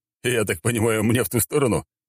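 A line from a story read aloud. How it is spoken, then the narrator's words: Snorted. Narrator (Russian): хмыкнул Москаленко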